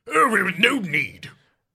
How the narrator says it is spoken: growled Merlin

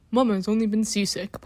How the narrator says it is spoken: Papa said in his deep voice

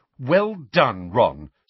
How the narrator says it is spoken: snapped Hermione

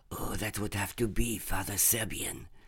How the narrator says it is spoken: Antoine whispered

